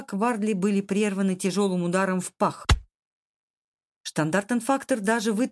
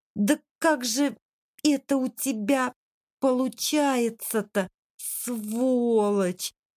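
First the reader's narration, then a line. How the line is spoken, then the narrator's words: Groaning. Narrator (Russian): простонал он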